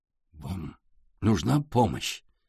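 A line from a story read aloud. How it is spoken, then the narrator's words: Quiet old man asking. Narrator (Russian): тихо спросил дедушка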